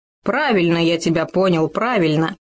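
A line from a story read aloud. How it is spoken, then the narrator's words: Mocking. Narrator (Russian): насмешливо заметил Хома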